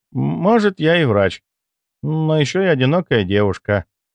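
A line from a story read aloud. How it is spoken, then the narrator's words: Sighing. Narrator (Russian): вздохнула Морозова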